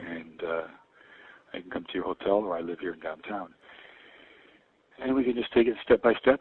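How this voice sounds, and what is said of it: Older man's voice, heavy breathing. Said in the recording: “The heavy breathing ... old man voice”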